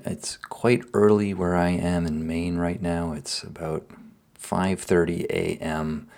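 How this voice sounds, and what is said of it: Groggy, early-morning voice. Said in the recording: “as you might hear, my voice is a little bit groggy”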